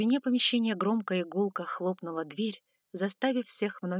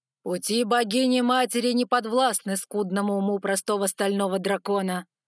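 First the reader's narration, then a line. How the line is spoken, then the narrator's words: Booming deep voice. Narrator (Russian): прогремел звучный низкий голос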